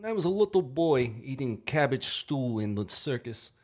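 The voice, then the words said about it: Good put-on Russian accent. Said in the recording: “that was good Russian accent right there”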